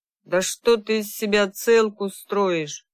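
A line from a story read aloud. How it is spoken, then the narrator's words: Said rudely. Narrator (Russian): грубо сказал Марат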